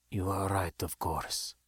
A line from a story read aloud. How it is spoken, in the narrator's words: spoke after a bit, almost in a whisper